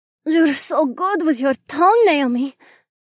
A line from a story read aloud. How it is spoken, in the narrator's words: Skye whimpered